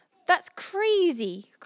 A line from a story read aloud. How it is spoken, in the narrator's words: cried Lucia